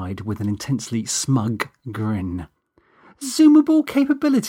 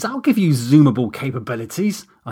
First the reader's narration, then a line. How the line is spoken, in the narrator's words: I snapped, incensed by the nerve of this young lad in his stupid toy town uniform